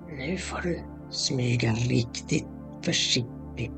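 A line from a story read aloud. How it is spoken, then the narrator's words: Whispering troll child. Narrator (Swedish): viskade trollungen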